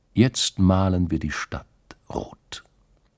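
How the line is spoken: Calm. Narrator (German): sagte die Stiefel Katrin ruhig

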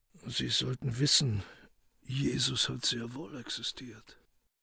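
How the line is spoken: Whispered. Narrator (German): flüsterte er

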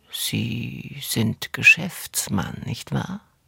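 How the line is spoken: Woman speaking after pause. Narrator (German): Die Frau sagt nach ein paar Sekunden

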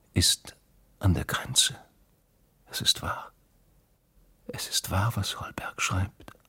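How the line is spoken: Whisper. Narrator (German): hatte sie geflüstert

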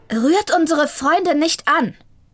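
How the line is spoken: Sudden call. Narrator (German): rief da plötzlich eine Stimme

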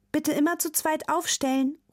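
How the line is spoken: Teacher calling to class. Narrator (German): ruft Frau Yilmaz, die Klassenlehrerin, vor dem Eingang zum Theater

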